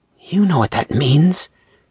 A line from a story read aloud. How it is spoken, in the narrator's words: Anthony gasped out